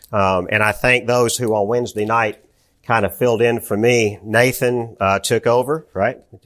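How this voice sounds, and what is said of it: Strained, unwell voice. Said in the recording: “If you are paying attention to my voice, you can sense that my voice is not 100% ... without too much interruption of coughing”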